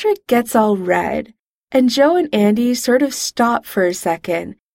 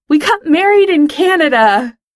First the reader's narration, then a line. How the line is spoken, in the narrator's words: Over all the teenies screaming, Pete yells into the mic